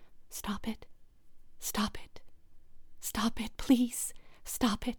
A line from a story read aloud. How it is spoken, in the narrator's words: frozen with fear, whispering